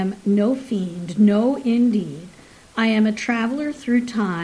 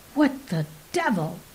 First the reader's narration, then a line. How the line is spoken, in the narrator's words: He snapped involuntarily